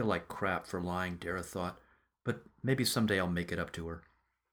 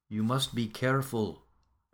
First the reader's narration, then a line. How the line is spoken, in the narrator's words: Vadoma said